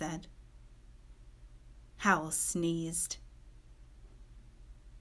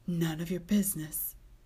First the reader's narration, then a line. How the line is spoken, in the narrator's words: he said hoarsely